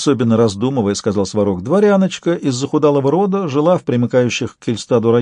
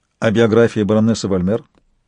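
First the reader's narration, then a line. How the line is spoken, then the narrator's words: Businesslike question. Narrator (Russian): уже деловым тоном спросил Интагар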